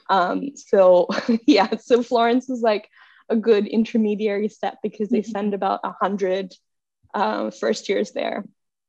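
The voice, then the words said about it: American accent. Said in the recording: “I've always had this accent. I've always sounded American.”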